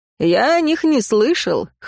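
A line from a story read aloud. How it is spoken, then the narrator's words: Snort. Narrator (Russian): хмыкнул он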